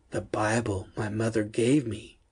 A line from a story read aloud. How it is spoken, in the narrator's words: murmured to himself